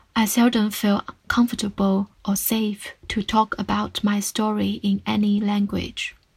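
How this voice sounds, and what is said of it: Non-native English accent. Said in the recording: “I am speaking in my third language now. Hope you will understand my unintentional accent”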